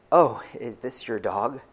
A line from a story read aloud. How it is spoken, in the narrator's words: asked meekly